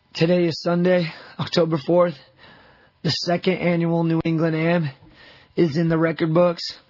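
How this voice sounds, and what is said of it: Hoarse, lost voice, sounds old. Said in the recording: “My voice is gone. Sorry, I sound like an old man. ... my voice is gone from yelling and cheering.”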